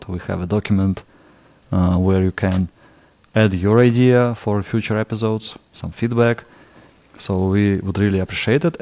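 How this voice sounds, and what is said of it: Russian accent. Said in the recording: “my Russian accent”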